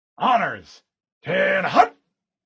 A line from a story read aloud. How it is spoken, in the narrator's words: Mendez barked